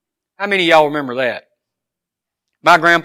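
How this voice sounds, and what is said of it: Usual voice. Nothing is said of it.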